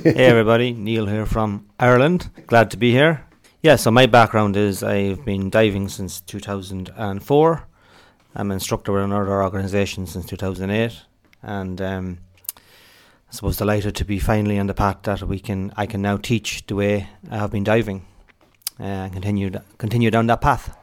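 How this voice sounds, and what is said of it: Strong Irish accent. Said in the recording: “I couldn't understand a thing he said ... I can get the accent a little ... Subtitle the podcast.”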